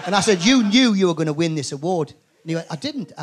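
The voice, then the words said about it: Geordie accent. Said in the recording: “He's got a Geordie accent.”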